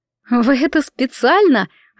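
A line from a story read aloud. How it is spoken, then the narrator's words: Laughing. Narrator (Russian): расхохоталась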